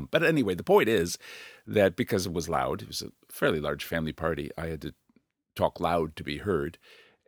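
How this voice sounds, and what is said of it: Hoarse, unusually deep voice. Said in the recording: “my voice sounds a bit hoarse or unusually deep”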